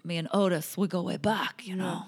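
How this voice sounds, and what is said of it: Poor Godfather-style mobster impression. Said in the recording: “terrible, terrible impression ... I'm trying to be the godfather”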